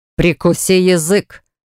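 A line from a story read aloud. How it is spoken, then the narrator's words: Growled. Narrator (Russian): зарычал он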